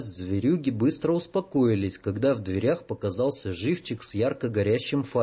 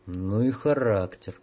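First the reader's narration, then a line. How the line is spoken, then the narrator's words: Sighing. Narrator (Russian): вздохнул дозорный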